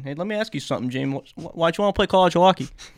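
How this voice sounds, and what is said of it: Put-on accent. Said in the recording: “I just had to do that accent.”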